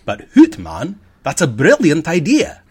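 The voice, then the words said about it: Put-on accent for a quote. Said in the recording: “I guess I should do the accent”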